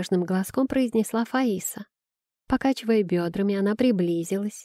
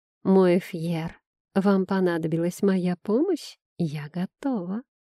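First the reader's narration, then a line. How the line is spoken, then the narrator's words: Gentle affectionate female voice. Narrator (Russian): Ласково сообщила предсказательница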